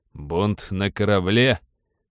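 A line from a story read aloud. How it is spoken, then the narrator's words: Feigned mocking question. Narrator (Russian): насмешливо уточнил помощник, хотя на самом деле ему было вовсе не до смеха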